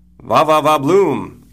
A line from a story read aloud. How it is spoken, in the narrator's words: shouts